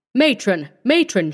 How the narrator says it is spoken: she cried, her eyes shining with excitement

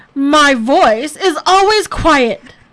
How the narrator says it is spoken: Bear shouted

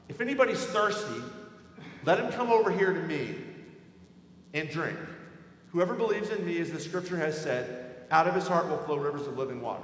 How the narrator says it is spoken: he cries out

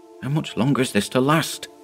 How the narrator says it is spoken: he whispered to Dyson

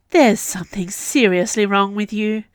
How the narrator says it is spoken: sighed

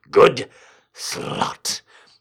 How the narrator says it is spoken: he said through clenched teeth

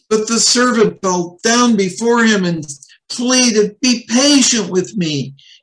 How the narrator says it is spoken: he begged

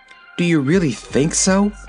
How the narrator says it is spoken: asked Polychrome anxiously

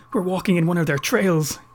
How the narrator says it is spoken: Clive gasped

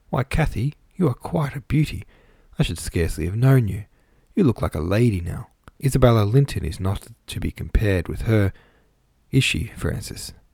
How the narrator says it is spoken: Hindley exclaiming delightedly

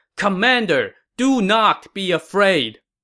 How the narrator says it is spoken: two Wei officers shouting

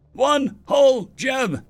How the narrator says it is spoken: he yelled back

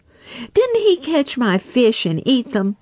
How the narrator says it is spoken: snapped Little Joe

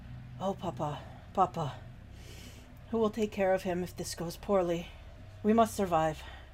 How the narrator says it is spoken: Beaumains whisper

